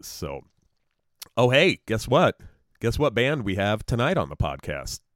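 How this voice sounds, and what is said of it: Rough, deep, sick-sounding voice. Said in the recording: “I am also sick as a dog. So I'm sure it comes through in my voice ... it'll make your voice that much deeper and spookier ... My voice is rough enough as it is.”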